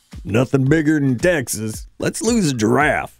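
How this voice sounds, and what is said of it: Failed attempt at Texas accent. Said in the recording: “That's not a Texas accent. I don't even know what that was.”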